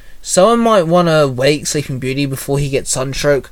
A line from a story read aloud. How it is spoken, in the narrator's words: Mikhail chuckled